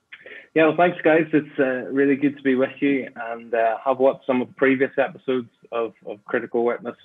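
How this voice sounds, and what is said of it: Northern Irish accent. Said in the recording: “you'll know, I guess, already from my accent. I was born in Northern Ireland, grew up in Belfast”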